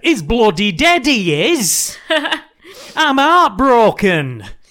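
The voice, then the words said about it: Put-on Yorkshire accent. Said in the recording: “Why have you decided that Byron's got a Yorkshire accent? ... It's quite good.”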